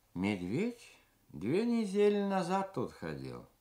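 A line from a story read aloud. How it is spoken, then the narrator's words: Dry. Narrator (Russian): сухо сказал Иосиф, покуривая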